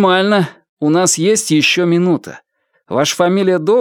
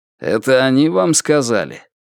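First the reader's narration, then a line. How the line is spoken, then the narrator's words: Contemptuous snort. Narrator (Russian): Альберт презрительно фыркнул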